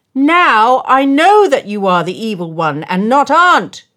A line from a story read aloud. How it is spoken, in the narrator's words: shouted Nicholas gleefully